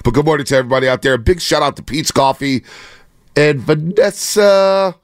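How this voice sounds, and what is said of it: Strained voice about to give out. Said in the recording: “I'm trying to save voice. It feels like my voice is going to go out at any given moment. I've been hanging out by a thread over these last 3 weeks.”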